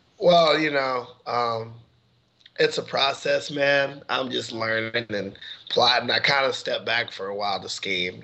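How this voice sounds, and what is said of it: Hoarse, cracking voice. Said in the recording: “my voice is a little gone. I overdid it at this uh, show I did Friday night... seasonal allergies kicked in, and now I sound like I'm going through puberty again.”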